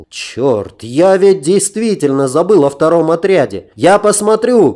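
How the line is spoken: Shouting while running. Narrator (Russian): крикнул я друзьям, сбегая вниз

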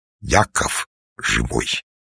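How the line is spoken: Solemn voice. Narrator (Russian): сказал торжественным голосом

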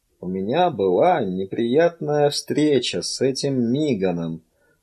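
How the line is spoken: Quiet voice. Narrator (Russian): ответил он тихим голосом

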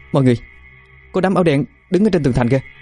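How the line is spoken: Calling out. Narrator (Vietnamese): Hải Yến kêu lên

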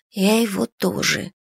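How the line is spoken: Barely audible whisper. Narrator (Russian): едва слышно прошептала я в ответ

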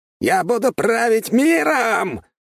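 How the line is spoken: Final roar. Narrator (Russian): взревел в последнем приступе

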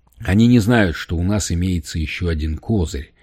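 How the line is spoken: Calm. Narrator (Russian): спокойно ответил Лейд

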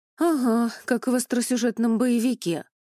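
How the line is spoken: Sighing. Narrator (Russian): вздохнула Эля

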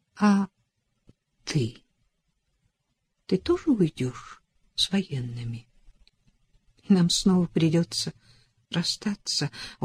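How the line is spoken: Barely audible. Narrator (Russian): сказала едва слышно

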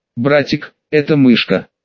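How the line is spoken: Indignant. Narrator (Russian): возмущенно произнесла Кусана

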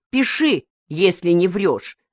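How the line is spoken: Harsh declaration. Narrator (Russian): заявила она жестким голосом

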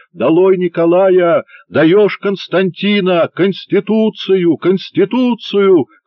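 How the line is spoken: Shouting. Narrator (Russian): кричал

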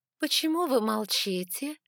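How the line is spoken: Languid voice. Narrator (Russian): спросила королева томным голосом

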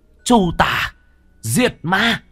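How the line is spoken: Bird's shriek. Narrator (Vietnamese): lam điểu hét lên một tiếng

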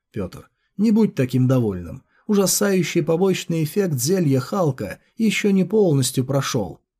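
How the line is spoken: Calm. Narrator (Russian): спокойно сказал

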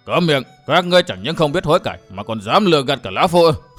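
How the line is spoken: Roaring. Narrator (Vietnamese): Bạch Đế đã gầm lên

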